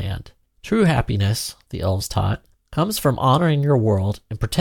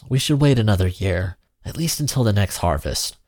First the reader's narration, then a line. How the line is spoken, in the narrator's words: Samira pleaded